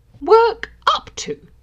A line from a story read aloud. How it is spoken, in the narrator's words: Draco began indignantly